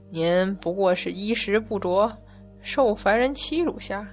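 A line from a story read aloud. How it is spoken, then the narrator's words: Old man sighing. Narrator (Chinese): 一个矮小的老头叹气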